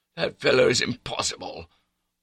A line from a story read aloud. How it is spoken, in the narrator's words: Bertie was croaking